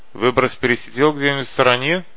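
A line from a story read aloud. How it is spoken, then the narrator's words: Snorting. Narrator (Russian): хмыкнул незнакомец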